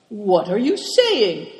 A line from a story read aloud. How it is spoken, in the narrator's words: cried Cao Chang indignantly